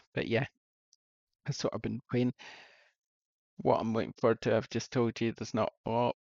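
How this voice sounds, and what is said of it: Hoarse, fading voice. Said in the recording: “I'm losing my voice ... It seems to be leaving me”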